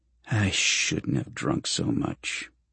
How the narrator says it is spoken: Carlyle mutters

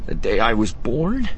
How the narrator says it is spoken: Quay Tulsite chuckled wetly

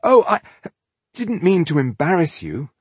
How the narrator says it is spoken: he stuttered

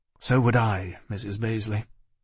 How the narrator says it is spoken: answered miserably

